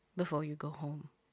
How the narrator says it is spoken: adds softly

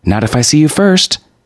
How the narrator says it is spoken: she said cheerfully

